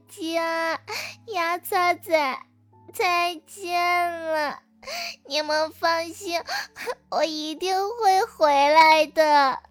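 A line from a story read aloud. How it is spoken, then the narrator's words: Sobbing, tearful farewell. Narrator (Chinese): 这小蛋蛋竟然哭得稀里哗啦的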